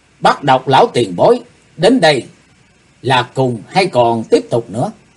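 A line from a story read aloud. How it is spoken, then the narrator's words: Loud reply. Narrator (Vietnamese): chàng to tiếng đáp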